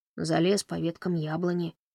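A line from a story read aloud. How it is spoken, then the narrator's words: Quiet reply. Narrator (Russian): тихо ответил он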